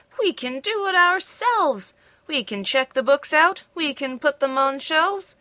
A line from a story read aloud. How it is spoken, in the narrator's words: the animals cried